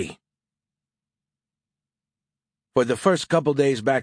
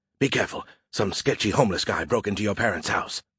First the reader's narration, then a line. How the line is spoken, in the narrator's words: he hissed